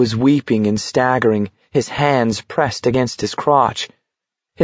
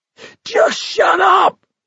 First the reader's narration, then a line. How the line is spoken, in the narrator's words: Gribble screamed